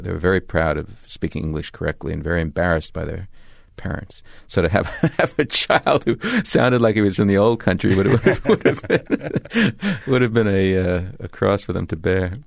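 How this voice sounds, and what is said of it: Thick accent. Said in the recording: “I have a much thicker accent”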